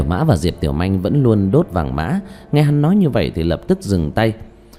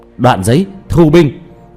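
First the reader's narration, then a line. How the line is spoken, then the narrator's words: Loud outward shout. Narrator (Vietnamese): Diệp Thiếu Dương lớn tiếng kêu lên ra bên ngoài cốc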